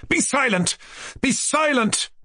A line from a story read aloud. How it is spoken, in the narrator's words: Mushkin cried furiously, flushing all over with indignation and perhaps with shame, too